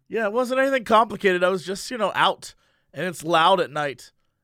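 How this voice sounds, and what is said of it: Hoarse, strained voice. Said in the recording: “I've lost my voice. ... I was screaming at a lot of people, and I lost it.”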